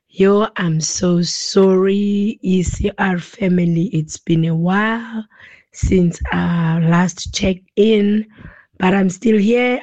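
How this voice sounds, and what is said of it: Sick, flu-affected voice. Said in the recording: “sorry about my voice. ... I've got flu”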